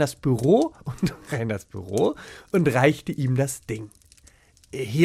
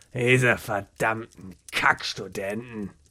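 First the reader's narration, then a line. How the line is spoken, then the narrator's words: Muttering to himself. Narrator (German): murmelte er vor sich hin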